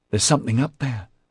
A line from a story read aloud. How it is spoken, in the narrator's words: the panicked boy gasped